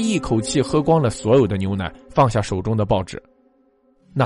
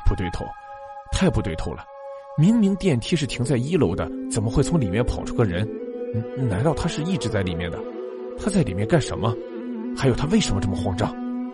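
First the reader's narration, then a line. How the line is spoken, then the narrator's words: Muttering to himself. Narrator (Chinese): 阿正喃喃自语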